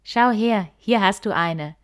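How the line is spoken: Bear calling out. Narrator (German): rief der Bär

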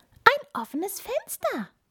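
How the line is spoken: Mouse's squeak. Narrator (German): piepste die Maus

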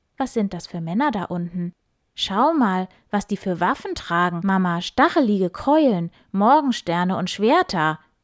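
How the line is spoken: Calling out. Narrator (German): rief Ulrich

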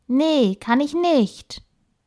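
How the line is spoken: Disappointed call. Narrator (German): Enttäuscht rief sie

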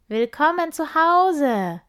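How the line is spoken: Voices calling from everywhere. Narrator (German): ruft es davon überall her

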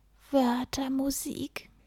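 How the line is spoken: Sighing. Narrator (German): er seufzte

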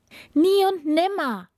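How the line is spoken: Calling out. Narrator (German): rief die Prinzessin

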